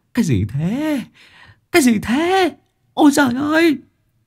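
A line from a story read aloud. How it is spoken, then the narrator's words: Overjoyed shouting. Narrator (Vietnamese): Hai anh em Sinh Lan vui mừng khôn xiết hò hét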